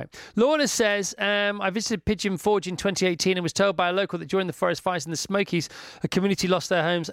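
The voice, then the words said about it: Fast speech with a noticeable accent. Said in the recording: “you're talking so fast, and you really do have this accent ... would you ask me that again a little slower?”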